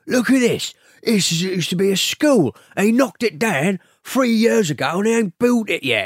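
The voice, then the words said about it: Bob Hoskins impression. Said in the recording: “It's actually quite a good impression. ... Bob Hoskins”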